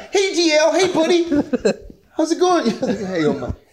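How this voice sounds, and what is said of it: High-pitched nervous voice. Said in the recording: “even my voice was high.”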